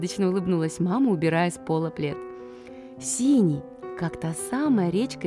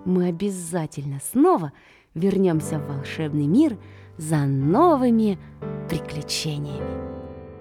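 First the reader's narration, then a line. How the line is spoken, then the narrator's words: Girl's whisper. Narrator (Russian): Девочка шепнула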